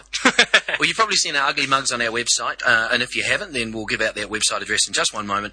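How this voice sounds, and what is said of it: New Zealand accent. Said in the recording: “I am a New Zealander, so excuse the accent.”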